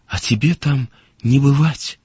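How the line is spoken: Plain. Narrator (Russian): сказала она

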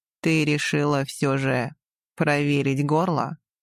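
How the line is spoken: Low dangerous husky voice. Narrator (Russian): Голос Мирона стал еще ниже, а опасная хрипотца

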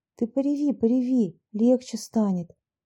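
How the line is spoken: Soothing tone. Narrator (Russian): успокаивающим тоном произнесла Люся

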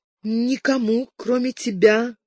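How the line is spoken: Forced out reluctantly. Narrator (Russian): наконец выдавила она

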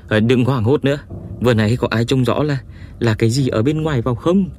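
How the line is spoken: Panting question. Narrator (Vietnamese): Đình Tư Điểm ... thở hổn hển hỏi

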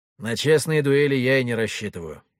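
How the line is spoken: Grumbled. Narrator (Russian): буркнул я

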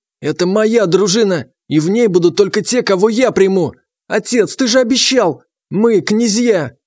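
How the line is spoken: Yelling young prince. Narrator (Russian): орал княжич

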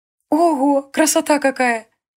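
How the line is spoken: Cheerful. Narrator (Russian): весело сказала Илия

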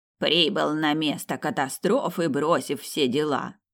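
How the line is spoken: Nasty mocking little voice. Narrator (Russian): Противненьким голоском процитировал

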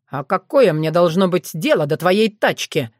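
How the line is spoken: Snapping retort. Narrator (Russian): огрызнулся Сергей

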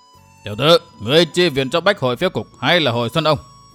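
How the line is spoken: Harsh shout. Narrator (Vietnamese): Ân bổn gần giọng quát

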